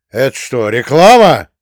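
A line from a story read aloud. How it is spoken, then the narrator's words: Barked. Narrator (Russian): рявкнул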